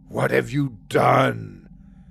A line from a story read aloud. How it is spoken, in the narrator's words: Acer said in a low growl